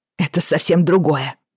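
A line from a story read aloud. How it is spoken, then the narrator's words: Snorting. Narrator (Russian): фыркнула Бриана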